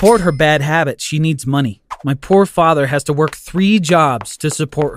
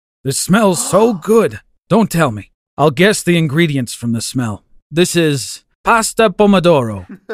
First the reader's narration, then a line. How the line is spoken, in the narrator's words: said